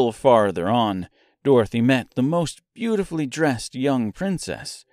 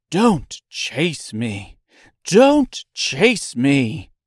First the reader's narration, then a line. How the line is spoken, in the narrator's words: But the China girl cried out